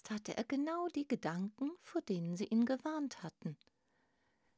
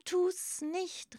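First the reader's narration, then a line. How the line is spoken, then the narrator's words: Shout. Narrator (German): rief einer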